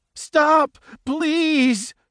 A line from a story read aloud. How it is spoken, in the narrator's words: Jaws 2 pleaded with the king